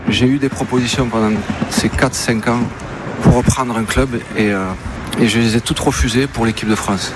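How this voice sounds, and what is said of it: Speaks with a distinctive accent. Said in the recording (French): “avec son accent qu'on aime tant”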